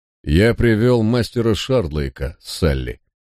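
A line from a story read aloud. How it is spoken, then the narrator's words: Casual tone. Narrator (Russian): проговорил он непринужденным тоном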